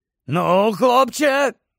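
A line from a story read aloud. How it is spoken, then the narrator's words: Hoarse werewolf rasp. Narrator (Ukrainian): прохрипів вовкулака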